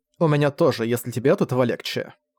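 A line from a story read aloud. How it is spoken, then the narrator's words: Female snort. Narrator (Russian): фыркнула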